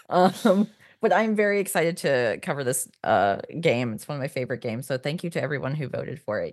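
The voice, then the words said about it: Hoarse cold voice with vocal fry. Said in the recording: “I'm recovering from a cold, so I apologize for my vocal fry that's happening in real time”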